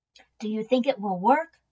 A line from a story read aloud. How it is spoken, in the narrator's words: Willie whispered